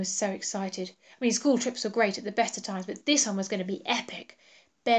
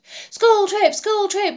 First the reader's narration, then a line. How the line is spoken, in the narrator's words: yelled Ben, running round his room